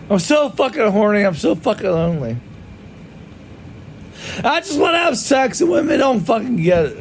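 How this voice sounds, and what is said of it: Drunken screaming. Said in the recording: “he appears to be drunk ... I keep screaming”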